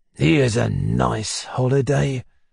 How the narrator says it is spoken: muttered Mr

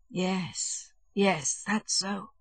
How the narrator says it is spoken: the dying man articulated slowly at intervals

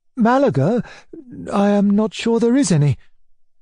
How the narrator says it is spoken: my uncle said, anxiously

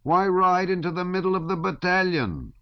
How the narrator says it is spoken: one of them shouted at him

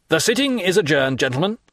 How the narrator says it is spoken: said the President

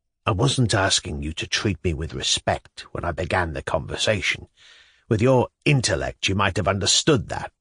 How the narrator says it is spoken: Shatov muttered indignantly

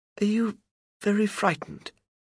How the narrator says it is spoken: she asks softly

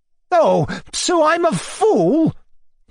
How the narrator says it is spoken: yelled

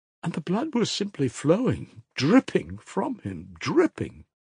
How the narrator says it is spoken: Fenya kept exclaiming

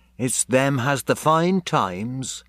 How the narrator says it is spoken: sadly then she said

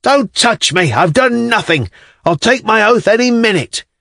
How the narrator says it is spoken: the other, who was Zimovekin, was shouting

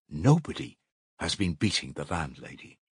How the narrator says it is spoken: she declared at last in a firm, resolute voice

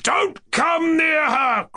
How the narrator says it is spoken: cried Rogozhin

